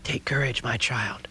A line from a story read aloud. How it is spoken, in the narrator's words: she whispered